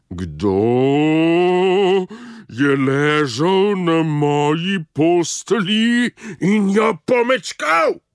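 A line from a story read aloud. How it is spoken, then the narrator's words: Mother bear's softer roar. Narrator (Slovenian): Tudi mama medvedka je zarjovela, samo malo tiše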